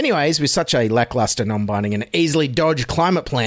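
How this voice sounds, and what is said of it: Usual voice. Nothing is said of it.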